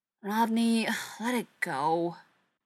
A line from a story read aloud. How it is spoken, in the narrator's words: Shepard sighed